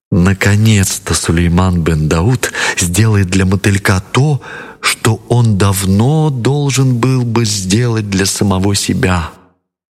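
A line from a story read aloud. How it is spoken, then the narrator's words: Cheerful whisper. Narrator (Russian): Балкис весело прошептала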